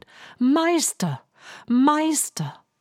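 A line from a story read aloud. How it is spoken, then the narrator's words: Very loud call. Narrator (German): rief die Harfe ganz laut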